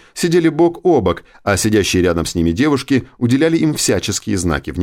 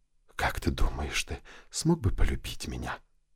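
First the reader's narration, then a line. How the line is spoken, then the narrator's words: Lustful whisper. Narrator (Russian): похотливо прошептала она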